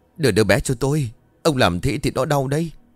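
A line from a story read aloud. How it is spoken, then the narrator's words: Puzzled mutter. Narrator (Vietnamese): Gã tỏ vẻ vô cùng khó hiểu rồi lẩm bẩm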